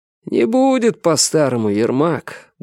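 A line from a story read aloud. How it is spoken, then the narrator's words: Sad statement. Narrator (Russian): грустно произнес Савин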